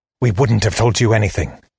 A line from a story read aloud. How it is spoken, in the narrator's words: she hissed